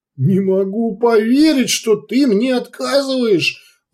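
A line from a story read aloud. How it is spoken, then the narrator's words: Wailed. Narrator (Russian): взвыл Урбек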